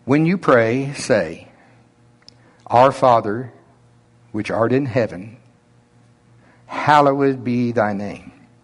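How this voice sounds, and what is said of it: Slow Oklahoma drawl. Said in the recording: “my slow Oklahoma drawl, my normal”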